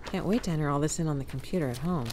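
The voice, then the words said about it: Sarcastic tone. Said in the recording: “I was being sarcastic.”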